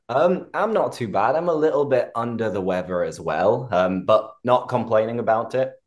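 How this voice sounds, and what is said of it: Croaky voice. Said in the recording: “my voice is a little bit croaky, a little bit sexier than usual”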